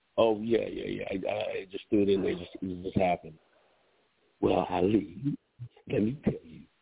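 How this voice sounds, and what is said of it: Usual voice. Nothing is said of it.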